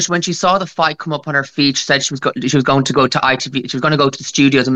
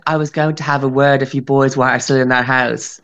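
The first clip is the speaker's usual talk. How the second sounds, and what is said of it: Really posh impression of Gemma Collins. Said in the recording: “I love how you've given Gemma Collins a really posh accent”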